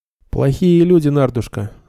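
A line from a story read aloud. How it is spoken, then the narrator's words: Gentle. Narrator (Russian): ласково сказал Нед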